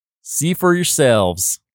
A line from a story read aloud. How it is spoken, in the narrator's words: Laughing, he tells the little ones